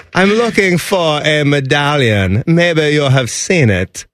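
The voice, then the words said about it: Put-on German accent. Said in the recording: “there's our German accent.”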